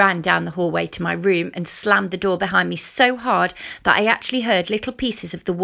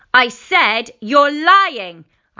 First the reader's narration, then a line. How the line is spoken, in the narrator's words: shouted